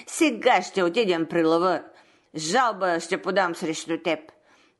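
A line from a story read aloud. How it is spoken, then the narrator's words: Growling wolf. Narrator (Bulgarian): ръмжал вълкът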